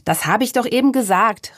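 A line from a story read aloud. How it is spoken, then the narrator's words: Called out. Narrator (German): rief der Apfelmann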